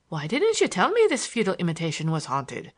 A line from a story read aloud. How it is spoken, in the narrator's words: asked Larry in a grieved tone